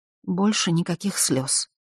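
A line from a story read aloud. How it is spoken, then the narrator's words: Quiet reply. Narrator (Russian): тихо ответила Эйлиш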